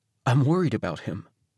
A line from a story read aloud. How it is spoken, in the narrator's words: My voice wavered a little as I whispered